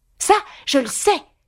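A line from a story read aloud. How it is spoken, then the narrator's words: Lively exclamation. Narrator (French): s'écria vivement Alice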